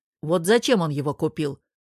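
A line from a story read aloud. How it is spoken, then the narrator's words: Grumbling. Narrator (Russian): ворчал Герман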